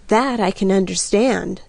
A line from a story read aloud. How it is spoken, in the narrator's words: I murmured